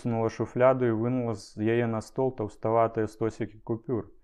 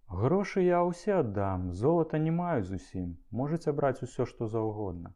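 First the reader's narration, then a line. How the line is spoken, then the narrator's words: Calm answer. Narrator (Belarusian): Цалкам спакойна яна адказала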